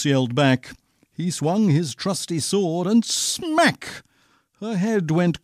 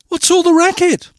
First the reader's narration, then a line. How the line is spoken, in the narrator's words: Cindy cried